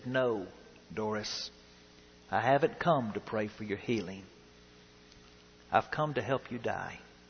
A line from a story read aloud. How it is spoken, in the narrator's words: The pastor gently said